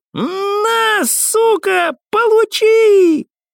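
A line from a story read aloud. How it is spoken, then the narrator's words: Furious shout. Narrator (Russian): курсант с яростью в голосе прокричал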